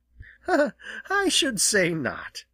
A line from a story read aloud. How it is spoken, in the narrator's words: laughed Jenny